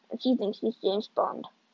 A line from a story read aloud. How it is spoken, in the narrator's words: I muttered